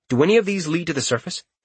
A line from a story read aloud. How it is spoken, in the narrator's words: he asked quickly